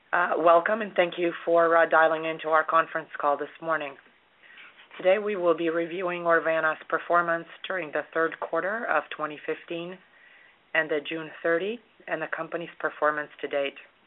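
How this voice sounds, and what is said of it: Hoarse, weak, hard-to-hear voice. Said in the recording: “I seem to have lost my voice, so I may be difficult to hear”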